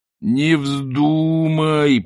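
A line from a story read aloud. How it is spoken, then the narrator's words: Moaning. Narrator (Russian): простонал Ринсвинд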